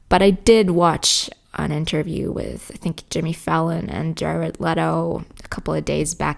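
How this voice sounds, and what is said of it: American-sounding accent. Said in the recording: “my accent ... A lot of people actually said that I sound quite American”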